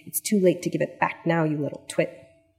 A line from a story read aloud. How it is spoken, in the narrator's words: hissing